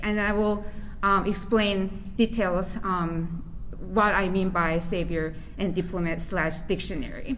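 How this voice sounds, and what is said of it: Non-native English accent. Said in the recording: “my accent, which is not native English speaker”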